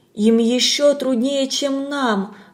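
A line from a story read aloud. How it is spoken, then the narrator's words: Sighing remark. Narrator (Russian): вздохнув, заметила Галя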